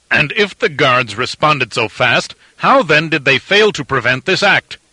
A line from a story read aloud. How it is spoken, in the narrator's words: demanded angrily